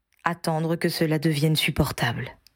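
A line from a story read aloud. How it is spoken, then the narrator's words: Sorry, helpless sigh. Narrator (French): soupira Harry, désolé de ne pouvoir lui apporter de réconfort plus efficace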